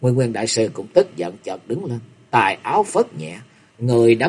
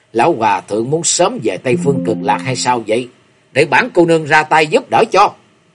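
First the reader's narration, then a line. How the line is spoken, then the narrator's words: Cold, mocking laugh. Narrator (Vietnamese): Liễu Như Yên cất tiếng cười nhạt và nói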